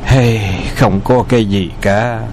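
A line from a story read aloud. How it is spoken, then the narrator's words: Sighing. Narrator (Vietnamese): Từ Tử Lăng trầm mặc hồi lâu, lắc đầu thở dài nói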